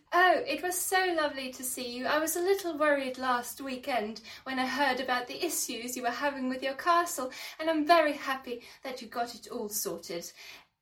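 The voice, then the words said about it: Put-on posh English accent. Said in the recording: “you need to do a new accent for us ... This one's definitely posh”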